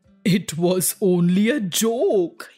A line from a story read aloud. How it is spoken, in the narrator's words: he roared